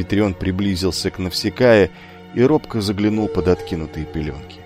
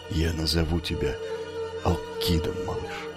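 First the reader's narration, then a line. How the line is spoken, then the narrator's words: Barely audible whisper. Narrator (Russian): неслышно прошептал он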